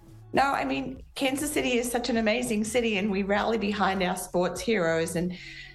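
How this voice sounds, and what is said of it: Faded British-sounding accent, not Midwestern. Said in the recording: “That is not a Midwestern accent. I don't know what that accent is it sounds like she's British and then she's been here for a while and like dwarfed the the British accent with some other shit ... that is not a Midwestern accent. That shit came from somewhere else.”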